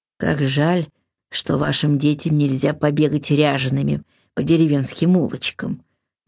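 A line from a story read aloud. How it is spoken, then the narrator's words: Sigh. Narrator (Russian): вздохнул аббат Иоанн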